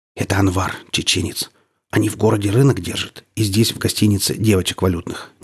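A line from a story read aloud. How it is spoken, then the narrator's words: Discreet whisper. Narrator (Russian): незаметно шепнул мне Валера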